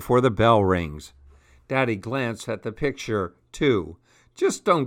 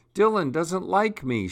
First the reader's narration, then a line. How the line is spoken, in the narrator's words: she sobbed